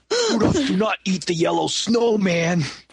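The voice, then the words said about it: Put-on New York accent. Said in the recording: “one of his teenage reindeer friends, like, has this New York accent.”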